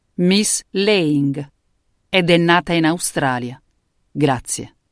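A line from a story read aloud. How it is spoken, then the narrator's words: Defiant, clearly enunciated. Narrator (Italian): scandì in tono di sfida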